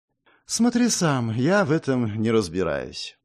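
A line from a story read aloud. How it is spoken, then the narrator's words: Languid sigh. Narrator (Russian): томно вздохнула Нелва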